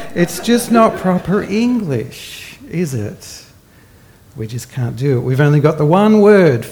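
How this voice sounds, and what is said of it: Usual voice. Nothing is said of it.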